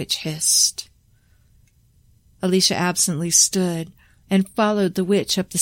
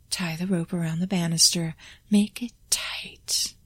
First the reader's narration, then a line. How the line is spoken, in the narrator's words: the witch whispered in Alicia's ear